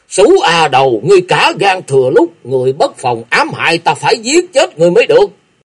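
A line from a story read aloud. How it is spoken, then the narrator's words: Frenzied furious roar. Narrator (Vietnamese): Thấy Cách La bị sát hại, Đa Luân Ba như điên cuồng lồng lộng, lớn tiếng quát to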